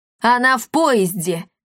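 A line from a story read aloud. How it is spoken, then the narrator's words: Loud shout. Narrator (Russian): громко крикнул им ищейка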